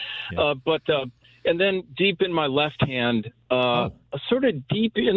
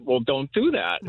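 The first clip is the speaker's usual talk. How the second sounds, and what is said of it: Funny accented doctor voice. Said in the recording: “the doctor says in his funny little accent”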